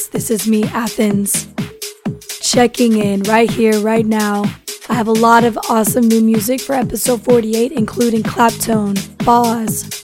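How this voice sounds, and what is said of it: Hoarse, nearly lost voice. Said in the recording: “If you can't tell, yes, I have lost my voice.”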